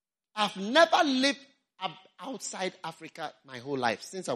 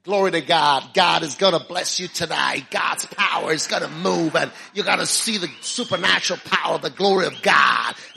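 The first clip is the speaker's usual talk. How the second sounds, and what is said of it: Put-on American accent. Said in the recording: “if I was American, that is how I would be talking”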